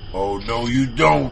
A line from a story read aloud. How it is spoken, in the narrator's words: he grunted